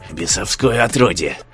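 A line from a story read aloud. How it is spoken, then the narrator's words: Hissing. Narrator (Russian): шипел он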